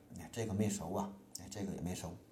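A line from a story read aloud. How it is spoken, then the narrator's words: Muttering. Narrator (Chinese): 嘴里还不停地嘟囔着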